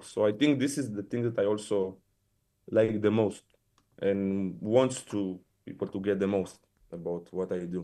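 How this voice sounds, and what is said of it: Strong Israeli accent. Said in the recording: “you're very Israeli and like your accent is so strong, like you're so identifiably Israeli”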